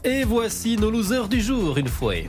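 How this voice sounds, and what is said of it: Put-on Belgian northern French accent. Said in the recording (French): “Oh là là, cet accent ... une tendresse particulière pour nos amis belges ... Oui, c'est le Nord, ça.”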